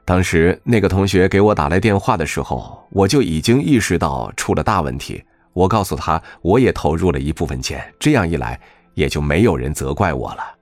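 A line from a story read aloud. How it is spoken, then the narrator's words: Wry bitter tone. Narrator (Chinese): 皮世飞苦笑着说道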